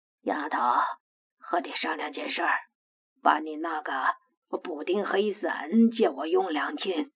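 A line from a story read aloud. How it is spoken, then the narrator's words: Hoarse, breathless old man. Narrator (Chinese): 无言老道扯着沙哑的嗓子，有些气喘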